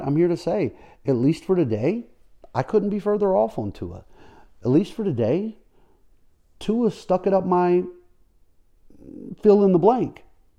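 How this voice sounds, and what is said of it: Happy, upbeat voice. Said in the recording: “hear the happiness in my voice.”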